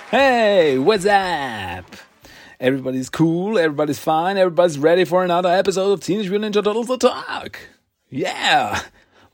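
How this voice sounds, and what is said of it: Over-the-top 90s radio DJ voice. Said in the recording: “Why do I sound like a radio DJ from the 90s? ... Ah, it's horrible.”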